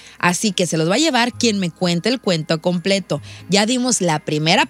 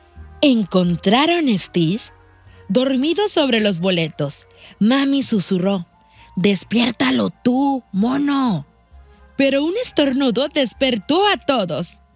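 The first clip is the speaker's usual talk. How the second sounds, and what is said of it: Storytelling narrator voice. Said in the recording (Spanish): “pongo mi voz de narradora”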